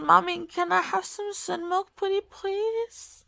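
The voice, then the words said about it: Baby voice. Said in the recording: “Baby voice”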